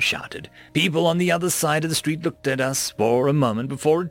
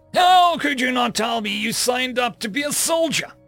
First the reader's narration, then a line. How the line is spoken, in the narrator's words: She shouted